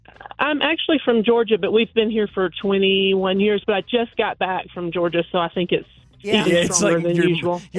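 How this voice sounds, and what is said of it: Georgia Southern twang accent. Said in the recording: “I love your accent. Like, I love the twang ... it's a beautiful, beautiful accent. You sound really nice.”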